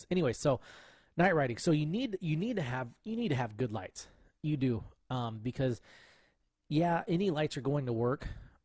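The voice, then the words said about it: Hoarse voice. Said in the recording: “my voice gets, excuse me, gets really hoarse. ... I can hear it changing in the headphones.”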